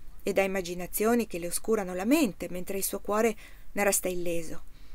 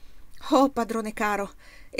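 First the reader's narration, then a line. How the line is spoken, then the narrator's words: Young man exclaiming. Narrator (Italian): esclamò il giovane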